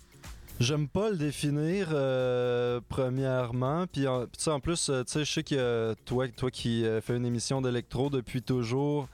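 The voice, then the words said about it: French accent not from France or Belgium. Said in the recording (French): “comme on peut l'entendre à ton accent, tu n'es pas originaire de France ou de Belgique”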